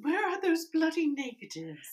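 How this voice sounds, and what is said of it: Put-on posh British accent. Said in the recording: “I don't know if that's like a posh British accent.”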